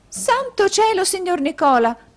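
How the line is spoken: Exclaimed. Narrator (Italian): esclamò la signorina Lacrivi

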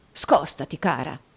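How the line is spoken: Plain. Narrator (Italian): rispose Squeers

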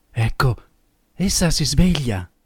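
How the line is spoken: Low voice. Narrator (Italian): Questi disse a bassa voce

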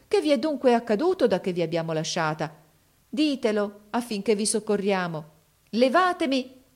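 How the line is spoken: Exclaiming. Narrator (Italian): esclamò essa

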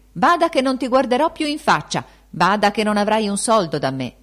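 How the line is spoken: Threatening shout. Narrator (Italian): ella gridandogli

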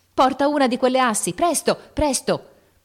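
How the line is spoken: Shouted. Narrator (Italian): la voce di Lori gridò

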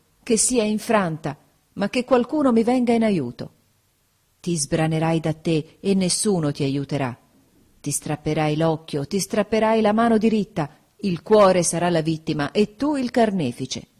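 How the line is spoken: Exclamation. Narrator (Italian): esclamai

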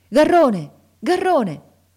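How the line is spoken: Shouted. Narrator (Italian): gridare

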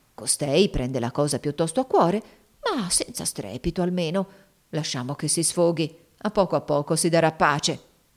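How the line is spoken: Murmuring to himself. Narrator (Italian): mormorava fra sé

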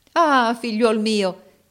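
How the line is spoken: King exclaiming. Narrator (Italian): esclamò il re

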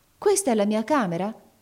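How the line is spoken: Exclaimed. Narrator (Italian): esclamò la barberina

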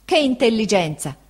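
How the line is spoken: Exclaimed. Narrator (Italian): esclamò Peggotty

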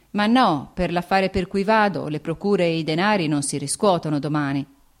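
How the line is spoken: Plain. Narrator (Italian): egli rispose

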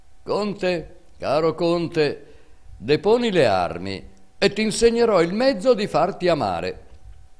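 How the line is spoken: Eagle shouting from above. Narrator (Italian): L'aquila gridando

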